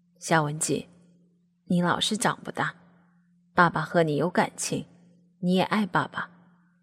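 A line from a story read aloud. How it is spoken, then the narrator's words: Sighing. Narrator (Chinese): 爸爸叹了一口气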